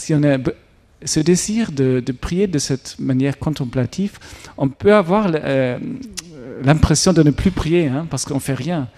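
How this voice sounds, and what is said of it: German accent speaking French. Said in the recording (French): “pardon pour mon accent allemand”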